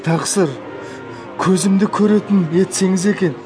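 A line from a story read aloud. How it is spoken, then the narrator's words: Pleading request. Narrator (Kazakh): деп өтінді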